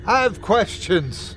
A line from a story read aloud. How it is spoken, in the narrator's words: I yelled, my voice traveling nowhere as though the air was too thick for it